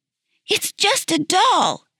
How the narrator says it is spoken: she cried, unaware of her effect

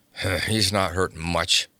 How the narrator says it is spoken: he grunted

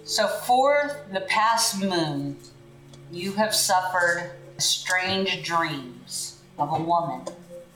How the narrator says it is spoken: her voice rasping behind a darkened veil

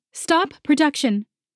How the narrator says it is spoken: with an extra layer of resonance to her voice, bellowed

